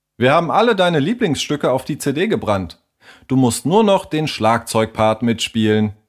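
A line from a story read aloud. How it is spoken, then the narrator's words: Plain. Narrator (German): sagte Leo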